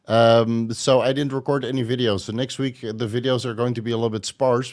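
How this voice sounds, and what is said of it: Sick-sounding voice. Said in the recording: “I was sick all week, as you might hear from my voice.”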